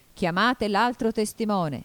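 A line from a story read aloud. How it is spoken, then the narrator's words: King shouting. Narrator (Italian): gridò il re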